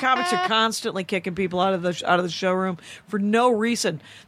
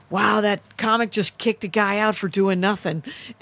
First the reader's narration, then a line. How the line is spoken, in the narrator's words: in the drunken boss voice